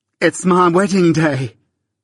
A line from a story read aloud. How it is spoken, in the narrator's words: cried Biddy in a burst of happiness